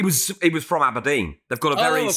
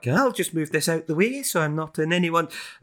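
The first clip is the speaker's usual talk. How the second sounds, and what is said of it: Bad Aberdeen accent impression, rising lilt. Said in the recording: “slightly Nordic lilt to their accent... That's a bad Aberdeen impression... their words go up at the end of them”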